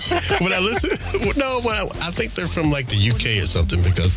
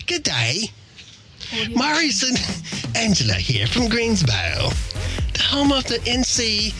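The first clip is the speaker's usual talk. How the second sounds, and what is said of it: Put-on British accent. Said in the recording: “I'm going to read it in my British accent.”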